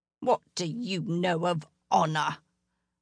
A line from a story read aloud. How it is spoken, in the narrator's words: Alderley hissed